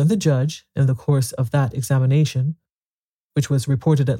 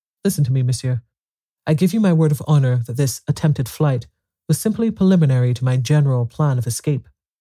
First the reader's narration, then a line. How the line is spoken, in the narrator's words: Arsène was annoyed, and firmly eyeing the judge, he said emphatically